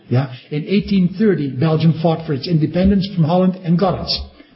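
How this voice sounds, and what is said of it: Dutch accent. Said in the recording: “I only have to open my mouth in Belgium, and they can hear by my accent ... oh, a Hollander, a Dutchman”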